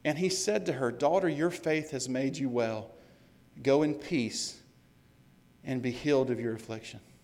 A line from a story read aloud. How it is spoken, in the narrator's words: He says